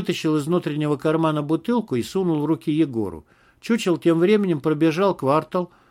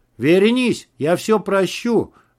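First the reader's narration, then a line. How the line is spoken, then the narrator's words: Yelling. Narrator (Russian): заорал Макс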